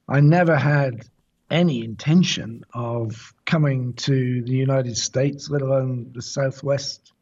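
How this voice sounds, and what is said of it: English accent. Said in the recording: “as you can tell from my voice, I'm from England”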